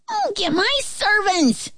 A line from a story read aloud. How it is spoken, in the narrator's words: shouted